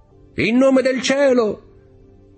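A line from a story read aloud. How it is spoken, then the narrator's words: Shouting. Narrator (Italian): gridò Dantès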